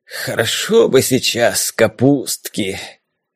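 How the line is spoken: Dreamy sigh. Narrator (Russian): мечтательно выдохнул Харунжий

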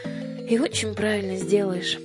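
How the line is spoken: Weary. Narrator (Russian): устало сказала Аннушка

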